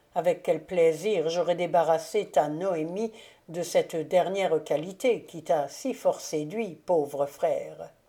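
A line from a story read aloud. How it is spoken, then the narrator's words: Murmured. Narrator (French): murmura Maximilien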